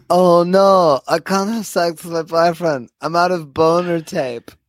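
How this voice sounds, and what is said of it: Bad put-on accent. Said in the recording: “worst impression I've ever heard in my entire life of anything ... an accent”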